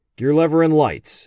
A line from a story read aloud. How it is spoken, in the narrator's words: asked Phil